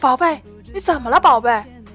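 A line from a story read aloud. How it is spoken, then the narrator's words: Frantic, hoarse screaming. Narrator (Chinese): 咸菜焦急的大喊，几乎是声嘶力竭，嗓子都喊哑了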